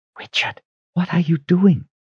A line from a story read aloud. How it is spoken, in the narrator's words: whispered